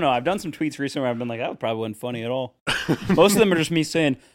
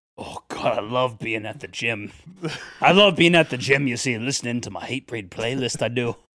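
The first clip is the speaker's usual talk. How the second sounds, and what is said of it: Put-on unidentified accent. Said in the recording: “What accent is this?”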